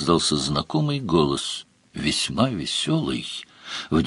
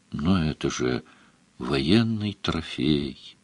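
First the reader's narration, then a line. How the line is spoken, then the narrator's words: Sad. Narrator (Russian): грустно сказала Мара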